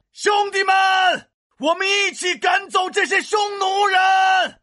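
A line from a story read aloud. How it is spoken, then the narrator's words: Shouting. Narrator (Chinese): 回头大喊道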